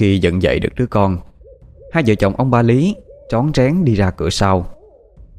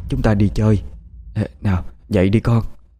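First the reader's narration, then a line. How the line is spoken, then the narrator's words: Soft whisper. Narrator (Vietnamese): bà Lý nói khẽ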